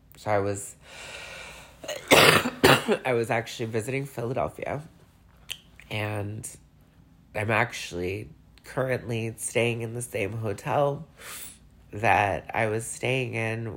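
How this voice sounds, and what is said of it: Teary, emotional voice. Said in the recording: “I'm starting to get a little teary-eyed ... if you catch some tears in this conversation, you're getting some raw emotion”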